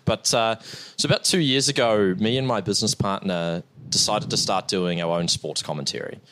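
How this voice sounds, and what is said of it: New Zealand accent. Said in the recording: “obviously you can tell by the accent, I'm a Kiwi”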